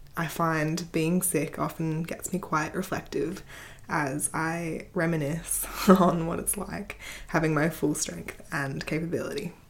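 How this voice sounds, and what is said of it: Slightly croaky, sick-sounding voice. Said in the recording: “I'm currently a little sick and so my voice might be a bit croaky”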